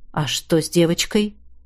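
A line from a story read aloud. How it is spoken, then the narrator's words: Quiet question. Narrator (Russian): тихо спросил император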